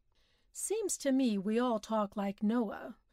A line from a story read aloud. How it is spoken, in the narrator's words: he suggested dryly